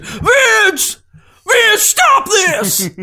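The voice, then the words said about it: Yelled celebrity impression. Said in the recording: “Nick Cage impression? ... All you have to do is yell.”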